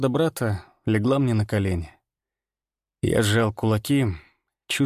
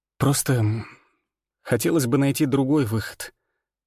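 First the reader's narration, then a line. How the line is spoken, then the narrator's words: Forced out. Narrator (Russian): выдавил я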